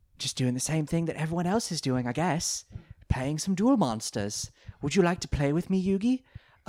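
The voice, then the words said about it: Weird put-on British accent. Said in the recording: “his weird British accent ... He sounds exactly like the Geico Gecko”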